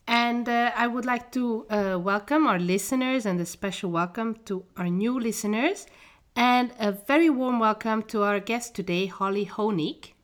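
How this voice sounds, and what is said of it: Congested, slightly funny-sounding voice. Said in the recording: “I have a bit of a cold. So if I sound funny”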